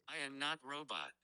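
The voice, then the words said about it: Robotic-sounding voice. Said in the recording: “you sounded a bit like a robot”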